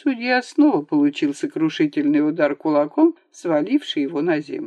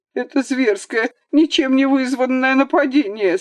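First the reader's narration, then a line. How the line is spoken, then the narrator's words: Sobbing. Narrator (Russian): сказал он, всхлипывая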